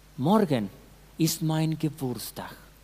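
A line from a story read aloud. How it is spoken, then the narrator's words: Woman speaking sadly. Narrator (German): Einer der Frauen namens Agnes sagte traurig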